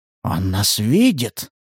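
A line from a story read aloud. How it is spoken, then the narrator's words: Whispered. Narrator (Russian): прошептал Сатурн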